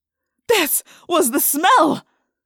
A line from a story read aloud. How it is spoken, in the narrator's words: He cried